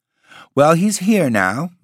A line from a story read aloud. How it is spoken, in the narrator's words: Miss Jones smiled cheerfully